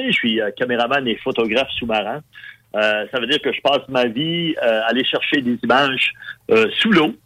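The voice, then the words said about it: Magdalen Islands Quebec French accent. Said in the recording (French): “c'est ça l'accent, hein, c'est ça que vous entendez. Donc, je suis Madino, donc euh, je suis né euh, aux îles de la Madeleine.”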